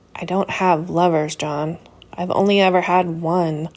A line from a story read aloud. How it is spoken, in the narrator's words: he said, croaking slowly